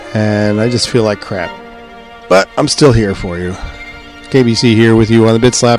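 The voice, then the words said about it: Congested voice from a cold. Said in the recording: “I've got a cold ... I grabbed a doozy of a cold. My head is full of cotton.”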